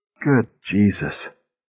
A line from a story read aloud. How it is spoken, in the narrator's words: Faintly, he heard Milligan mutter